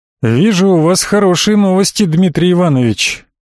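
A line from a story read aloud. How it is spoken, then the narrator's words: Booming voice. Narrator (Russian): прогудел, как иерихонская труба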